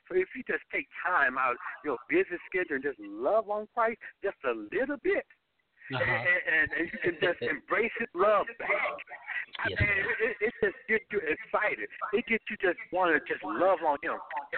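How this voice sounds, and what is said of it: Enthusiastic, excited speaking voice. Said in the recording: “hear the enthusiasm in your voice”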